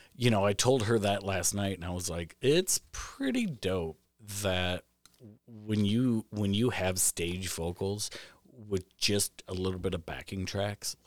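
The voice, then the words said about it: Rough, hoarse voice. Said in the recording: “Sorry, my voice is getting rough here.”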